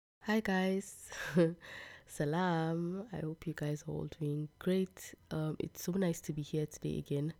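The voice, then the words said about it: Congested, sick-sounding voice. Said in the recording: “yesterday I had like the worst cold. I don't know if you guys can still tell from my voice... I'm so sorry, my voice.”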